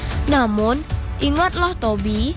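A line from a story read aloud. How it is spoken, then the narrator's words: Wise, smiling. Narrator (Indonesian): kata burung hantu bijak sambil tersenyum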